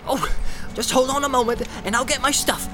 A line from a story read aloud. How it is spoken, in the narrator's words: cried Sam eagerly